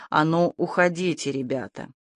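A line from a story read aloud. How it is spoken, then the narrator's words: Quiet, indistinct mumble. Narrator (Russian): Сказал он это тихим голосом, невнятно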